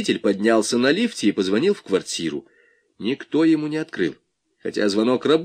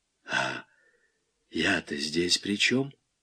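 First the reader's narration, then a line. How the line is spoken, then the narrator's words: Wheezy. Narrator (Russian): просипел Малянов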